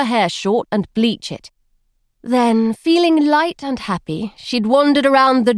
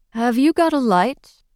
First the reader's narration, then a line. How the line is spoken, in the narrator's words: His voice was dry, American, amused